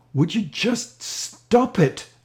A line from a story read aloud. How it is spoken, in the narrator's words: yelled